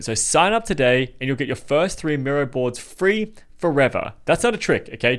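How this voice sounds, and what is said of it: Speaks with a foreign accent. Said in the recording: “because I have a funny accent”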